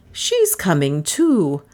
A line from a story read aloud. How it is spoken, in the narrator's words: said Miss Cornelia triumphantly